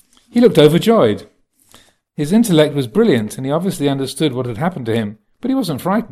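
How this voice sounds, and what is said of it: Usual voice. Nothing is said of it.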